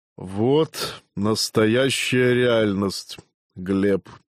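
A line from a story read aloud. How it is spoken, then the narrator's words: Muffled, hollow voice. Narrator (Russian): глухо произнес Казимир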